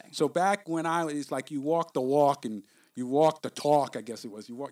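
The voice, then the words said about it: New York accent. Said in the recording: “I guess that's my New York accent ... that's your New York coming out”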